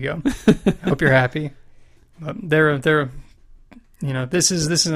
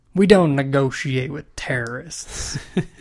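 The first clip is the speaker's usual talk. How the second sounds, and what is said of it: Put-on drawl. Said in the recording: “You gotta say that with a bit of a drawl.”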